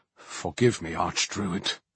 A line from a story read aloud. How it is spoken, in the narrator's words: the sweating figure muttered